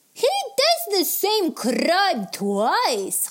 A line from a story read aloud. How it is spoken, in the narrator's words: Khawler exclaimed